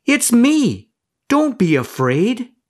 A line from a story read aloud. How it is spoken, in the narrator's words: a voice called out to them